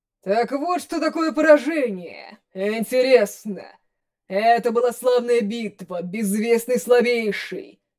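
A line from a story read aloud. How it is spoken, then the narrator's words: Thunderous booming. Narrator (Russian): Прогремел бог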